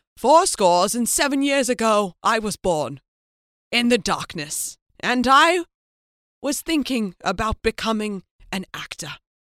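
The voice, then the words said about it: Mock grandiose Oscar acceptance speech. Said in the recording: “This is my impression of someone winning an Oscar.”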